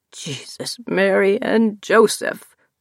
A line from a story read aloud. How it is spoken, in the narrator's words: he says in his fake crying voice